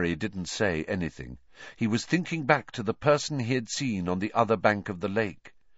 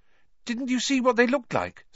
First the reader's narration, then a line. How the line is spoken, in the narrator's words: said Hermione eagerly